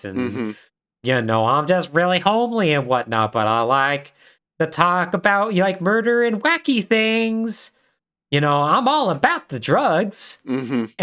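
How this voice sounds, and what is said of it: Sarah Palin-style folksy accent. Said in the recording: “kind of like a Sarah Palin sort of accent.”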